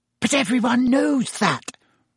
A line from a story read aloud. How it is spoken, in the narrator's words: said Hermione in a loud whisper